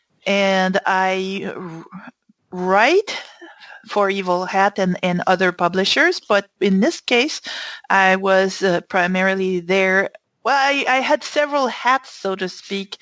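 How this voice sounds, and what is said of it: French-Canadian accent. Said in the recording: “You'll probably guess from my accent that I was not born in the U.S. I'm French-Canadian.”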